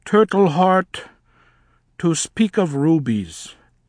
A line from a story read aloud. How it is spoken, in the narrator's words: he said with a great sigh